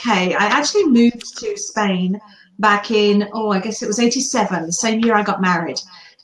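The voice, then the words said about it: British accent. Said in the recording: “you can probably tell by the accent that originally from the UK”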